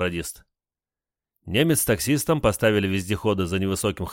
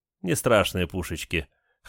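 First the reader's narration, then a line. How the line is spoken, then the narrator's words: Chuckling scout. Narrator (Russian): хохотнул один из разведчиков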